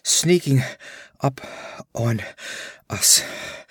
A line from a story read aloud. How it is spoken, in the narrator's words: gasped Balthus